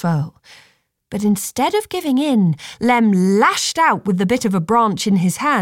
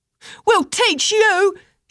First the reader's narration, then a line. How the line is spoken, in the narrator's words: shouted someone